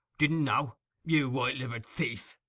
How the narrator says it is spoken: growled Sikes

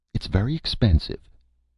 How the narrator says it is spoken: said firmly

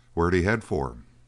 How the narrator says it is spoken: He added sharply

